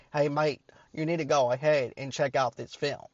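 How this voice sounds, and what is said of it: Poor put-on Australian accent. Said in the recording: “I probably countrified the Australian accent. I'm sorry, I'm not very good at it.”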